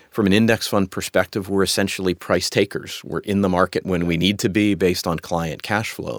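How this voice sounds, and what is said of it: American accent. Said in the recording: “with your accent, you're from America”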